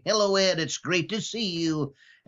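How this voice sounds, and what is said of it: Imitates another person's voice. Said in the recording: “I did a Johnny Carson impression ... Bill does a great Johnny Carson ... I would pull out my Johnny Carson impression”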